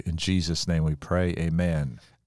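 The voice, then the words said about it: Slight Southern drawl. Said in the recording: “you ended that amen a little bit from the south ... the southern drawl jumps on people”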